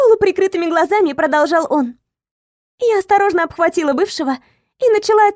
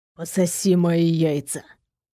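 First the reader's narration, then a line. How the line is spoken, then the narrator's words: Muffled whisper. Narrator (Russian): глухим шепотом проговорил Никита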